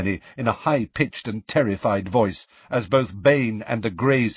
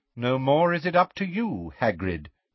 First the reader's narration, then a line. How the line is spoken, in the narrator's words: said Magorian smoothly